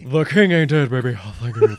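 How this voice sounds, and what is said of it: Imitates another person's voice, well done. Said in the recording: “That's pretty good, actually. That was good impersonation.”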